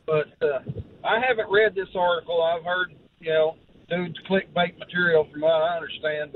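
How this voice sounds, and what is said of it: Loud, yelling voice. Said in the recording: “I'm on hands-free, so I'm sorry for yelling.”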